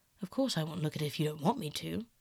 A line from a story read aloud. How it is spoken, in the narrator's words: said, rather coldly